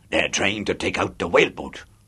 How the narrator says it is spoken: he bellowed

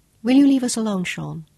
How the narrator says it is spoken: Claudia asked

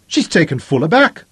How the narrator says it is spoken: Denham's triumphant yell

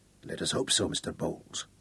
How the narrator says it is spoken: the buzzard grunted

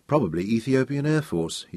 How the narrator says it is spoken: said softly

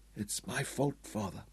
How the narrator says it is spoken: Tom's voice was broken and desolate as he whispered

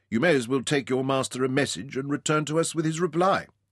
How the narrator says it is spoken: said Ryder dryly

